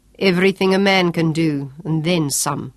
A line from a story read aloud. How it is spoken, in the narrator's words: remarked coldly